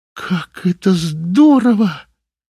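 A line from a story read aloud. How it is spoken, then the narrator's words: Exclamation. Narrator (Russian): воскликнула Юлия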